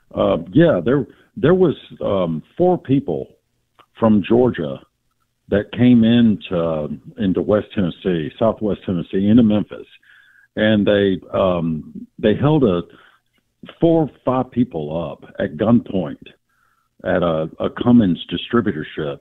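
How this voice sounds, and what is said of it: Tennessee Southern accent. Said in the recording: “Hello in Tennessee... He's got the accent.”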